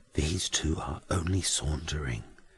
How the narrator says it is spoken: Jasper whispers

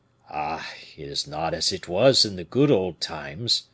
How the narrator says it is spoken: sighed the falconer

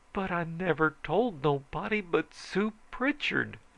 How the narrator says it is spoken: I says wildly

